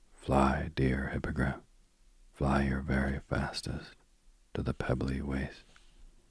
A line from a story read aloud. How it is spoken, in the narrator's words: he whispered in the sharp white ear